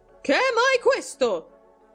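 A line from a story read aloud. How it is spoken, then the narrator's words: Loud shrill shout. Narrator (Italian): gridò con voce alta e stridula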